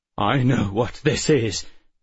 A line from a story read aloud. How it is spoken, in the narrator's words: Bentham said, his voice trembling